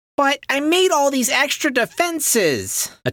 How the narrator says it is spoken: Attila whined

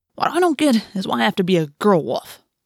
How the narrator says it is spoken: Marco grumbled

